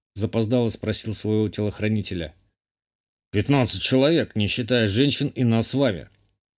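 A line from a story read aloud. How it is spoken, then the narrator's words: Plain. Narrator (Russian): ответил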